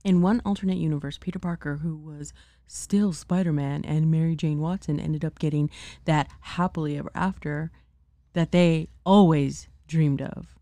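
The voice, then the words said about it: Announcer-style commercial voice. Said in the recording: “I'm trying to do my commercial voice.”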